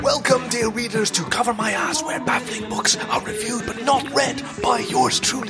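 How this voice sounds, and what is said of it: Whispering. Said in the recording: “I'm wondering why we're whispering.”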